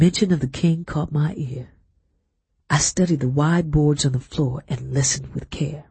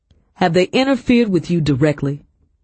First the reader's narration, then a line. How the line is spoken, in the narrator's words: Lockton asked